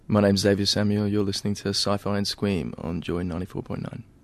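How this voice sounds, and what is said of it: Polished radio announcer voice. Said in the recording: “Did I have a radio voice then when I said those things? ... Wow, that's good.”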